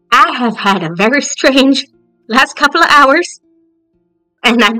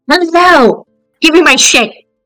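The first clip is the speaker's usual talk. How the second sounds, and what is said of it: Yelling loudly. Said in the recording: “Why are you yelling”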